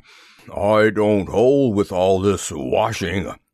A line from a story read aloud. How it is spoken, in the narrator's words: grumbled Eeyore